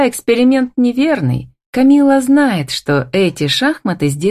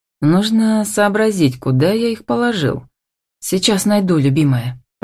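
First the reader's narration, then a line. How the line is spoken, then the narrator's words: Whispered into ear. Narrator (Russian): прошептал на ушко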